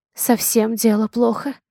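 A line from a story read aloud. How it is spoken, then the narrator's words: Whisper. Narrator (Russian): шепнула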